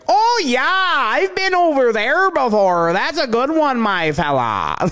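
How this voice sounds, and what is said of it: Put-on northern Canadian accent. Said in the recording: “There's one accent I cannot find sexy, and that's like super northern Canada when the girl is like”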